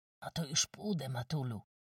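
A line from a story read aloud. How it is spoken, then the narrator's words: Cautious whisper. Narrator (Polish): szepnął, ostrożnie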